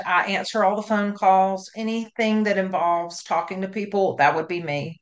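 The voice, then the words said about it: Southern US accent. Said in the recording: “I'm down here in the South. I have a Southern accent.”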